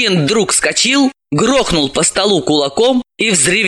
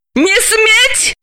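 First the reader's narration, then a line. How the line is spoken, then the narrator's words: Screaming. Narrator (Russian): завопила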